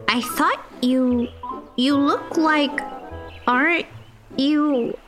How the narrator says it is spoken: Fia stammered

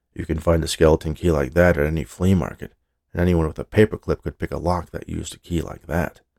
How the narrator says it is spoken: the voice of her skeptical partner, muttering

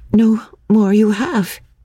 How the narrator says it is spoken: stammered

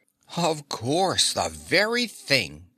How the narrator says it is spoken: exclaimed the Scarecrow

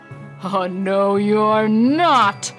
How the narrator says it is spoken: bellowed the troll

